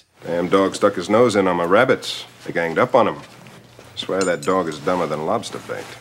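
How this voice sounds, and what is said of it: Convincing Maine accent. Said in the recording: “Clancy Brown's accent, by the way, is incredible. He does that whole Maine accent thing ... it's almost like Clancy Brown's voice was made for that accent”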